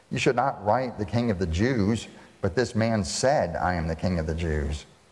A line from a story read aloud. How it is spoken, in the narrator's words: Pilate answered